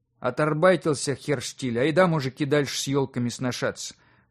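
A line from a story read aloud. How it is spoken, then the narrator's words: Bitter grumble. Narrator (Russian): Горько пробурчал он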